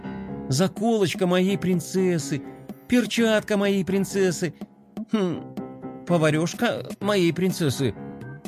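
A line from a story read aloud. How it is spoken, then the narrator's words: Slightly bewildered. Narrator (Russian): Немного растерянно произнес скейтбордист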